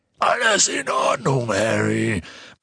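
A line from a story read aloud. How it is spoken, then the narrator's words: Giant shouting at speed. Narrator (German): brüllte Hagrid, den die steigende Geschwindigkeit nun flach auf den Rücken drückte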